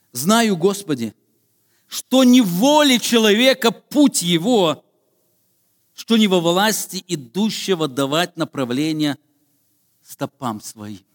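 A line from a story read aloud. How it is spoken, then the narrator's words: Prophet exclaiming. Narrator (Russian): Пророк Иеремия однажды воскликнул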